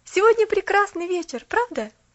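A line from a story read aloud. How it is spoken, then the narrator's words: Forced cheerfulness. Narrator (Russian): вслух Поллианна весело сказала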